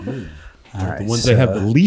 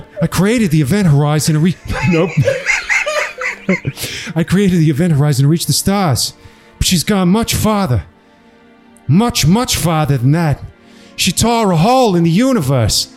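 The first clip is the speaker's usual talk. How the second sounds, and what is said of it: Thick put-on Boston accent. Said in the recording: “you have to do it in a thick Boston accent”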